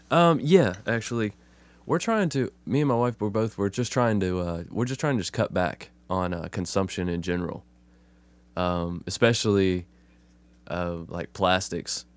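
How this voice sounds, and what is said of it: Rough, congested voice from a cold. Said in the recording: “I got a little bit of a cold ... Yeah, it sounds like it ... old 40-year smoker voice ... My voice just sounds like shit”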